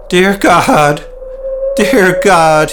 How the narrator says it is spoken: he cried

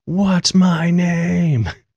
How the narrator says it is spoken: I yell

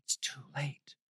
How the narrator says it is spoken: whispered

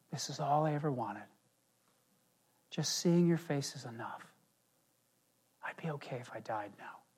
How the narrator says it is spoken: his father whispers in his ear

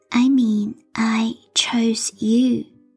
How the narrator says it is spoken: she said in that sweet, unsettling voice

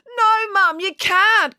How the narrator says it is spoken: cried Daisy

